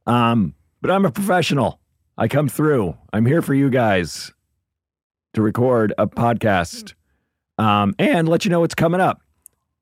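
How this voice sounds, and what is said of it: Hoarse, nearly lost voice. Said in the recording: “Excuse my voice. Wow. I didn't realize how bad it was till I heard it through the microphone. ... I'm not sick. I just lost my voice”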